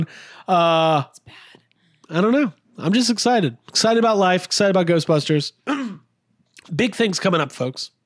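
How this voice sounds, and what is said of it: Hoarse, failing voice. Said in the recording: “I'm losing my voice. ... I'm choking.”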